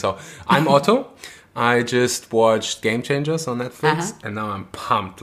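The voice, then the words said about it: German accent. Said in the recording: “It's a proper German name. ... fits perfectly to my accent.”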